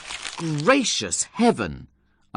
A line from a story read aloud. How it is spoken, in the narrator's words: I cried